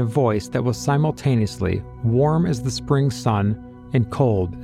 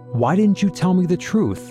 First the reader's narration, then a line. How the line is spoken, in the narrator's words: Angry, Eric shouted